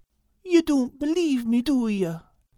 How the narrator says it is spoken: said Al sadly

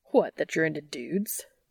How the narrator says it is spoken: Dean scoffs

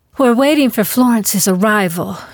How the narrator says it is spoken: explained breathlessly

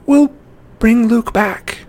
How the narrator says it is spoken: Annabeth pleaded

